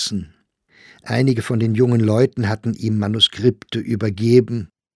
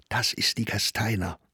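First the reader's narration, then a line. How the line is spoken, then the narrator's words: Whispering. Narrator (German): flüsterte Meyer dem Sachsberger zu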